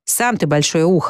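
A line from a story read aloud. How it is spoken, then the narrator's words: Blind man snapping. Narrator (Russian): огрызнулся слепой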